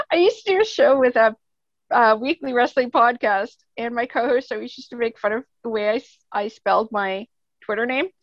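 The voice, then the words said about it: Loud voice, Canadian accent. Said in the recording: “I am a loud one with a Canadian accent, eh?”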